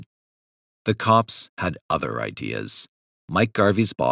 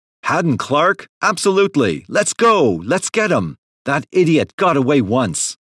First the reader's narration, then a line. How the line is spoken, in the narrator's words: shouted into the phone